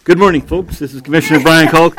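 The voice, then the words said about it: Announcer-style radio voice. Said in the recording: “I have my radio voice”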